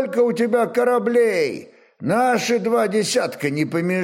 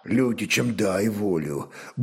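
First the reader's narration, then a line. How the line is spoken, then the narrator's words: Grumbling mutter. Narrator (Russian): буркнул Трувор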